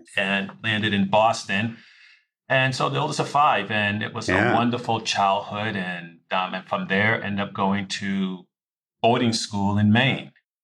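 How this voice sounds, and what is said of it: Thick Boston accent. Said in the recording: “I couldn't tell by the accent. ... it's pretty thick at times”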